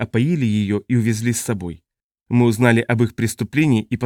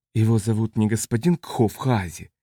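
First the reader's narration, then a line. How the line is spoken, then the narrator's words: Quiet question. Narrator (Russian): тихо спросил Элрик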